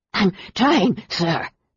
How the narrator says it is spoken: panted another

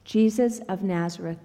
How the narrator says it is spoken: they said

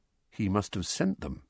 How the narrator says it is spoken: said Harry quietly, more to himself than to Uncle Vernon

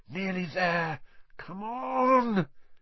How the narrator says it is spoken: The engine groaned

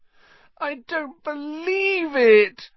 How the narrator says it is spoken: Hermione wailed

